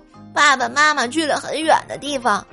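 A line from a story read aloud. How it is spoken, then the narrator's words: Crying. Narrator (Chinese): 小黄哭着说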